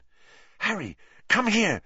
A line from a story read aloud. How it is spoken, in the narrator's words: she said urgently